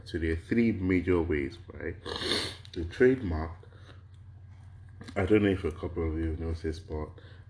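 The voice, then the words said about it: Harsh, congested voice from a cold. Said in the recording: “I have a little bit of a cold. ... I do have a little bit of a runny nose. And so if my voice kind of sounds a bit harsh”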